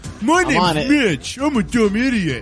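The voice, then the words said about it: Mocking impression of Mitch. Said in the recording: “We nailed the Dahl and Heil impressions ... we sound more like them than they do ... whenever anyone makes fun of someone, they always use the same voice”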